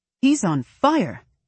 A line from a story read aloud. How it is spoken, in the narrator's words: he yells